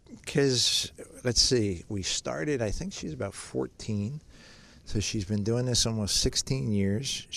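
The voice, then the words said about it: Teary, emotional voice. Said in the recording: “I'm getting a little teary-eyed here.”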